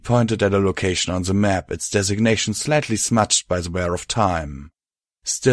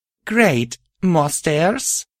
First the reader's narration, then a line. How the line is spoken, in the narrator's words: groaned